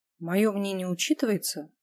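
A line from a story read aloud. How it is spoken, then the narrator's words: Gloomy. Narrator (Russian): мрачно уточнила я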